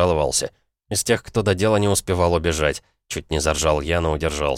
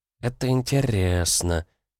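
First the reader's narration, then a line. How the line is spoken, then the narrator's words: Sultry girl purring. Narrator (Russian): очень эротично промурлыкала девчонка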